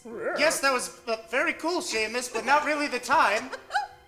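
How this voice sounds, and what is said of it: Posh Downton Abbey English accent. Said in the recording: “What is your accent? ... Downton right. Abbey.”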